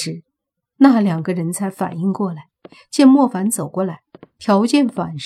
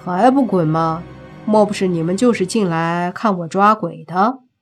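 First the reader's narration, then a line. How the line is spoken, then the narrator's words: Flat, detached. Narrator (Chinese): 莫凡淡淡的说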